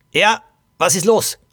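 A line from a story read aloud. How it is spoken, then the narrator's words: Angry young woman. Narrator (German): Eine junge Frau … wütend … sagte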